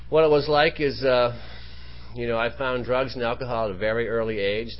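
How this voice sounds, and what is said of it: Southern Maine East Coast accent. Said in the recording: “I grew up on the East Coast, some of you can probably detect already. I do have an accent. I'm from Southern Maine”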